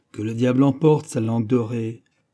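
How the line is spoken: Grumbled. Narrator (French): grommela D'Artagnan

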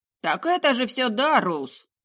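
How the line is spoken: Shout from a crowd. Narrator (Russian): выкрикнул кто-то из толпы

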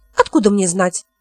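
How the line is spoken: Irritable snap. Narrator (Russian): огрызнулась она

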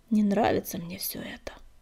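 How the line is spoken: Mutter. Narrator (Russian): пробормотал он

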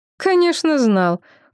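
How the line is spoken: Snorted. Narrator (Russian): фыркнула Мутнафред

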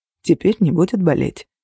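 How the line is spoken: Quiet speech. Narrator (Russian): тихо произнес

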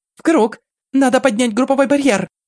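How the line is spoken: Desperate shout over noise. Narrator (Russian): Отчаянно закричала Алиса, надеясь, что ее голос пробьется сквозь гул и вой

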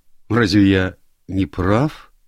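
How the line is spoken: Uncertain question. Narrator (Russian): неуверенно спросил Доггер

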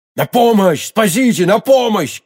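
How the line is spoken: Shouted. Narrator (Russian): крикнул он

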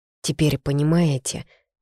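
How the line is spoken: Weary question. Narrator (Russian): устало спросила

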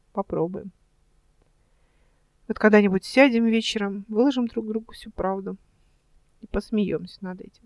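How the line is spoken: Quiet. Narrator (Russian): тихо сказала она

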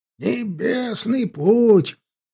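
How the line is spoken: Grunting, croaking old voice. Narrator (Russian): повторил профессор кряхтящим, чуть каркающим голосом

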